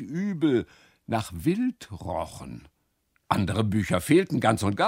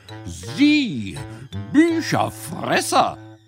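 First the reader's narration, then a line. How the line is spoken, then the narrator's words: Indignant exclamation. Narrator (German): rief sie empört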